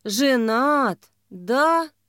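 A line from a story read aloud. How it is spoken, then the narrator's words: Disappointed drawl. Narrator (Russian): с разочарованием в голосе протянула дочь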